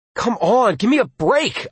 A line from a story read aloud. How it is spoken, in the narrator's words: I yelled